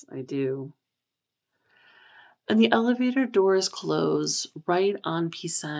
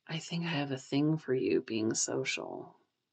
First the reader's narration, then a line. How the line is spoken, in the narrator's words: Pisang whispers into Kawi's ear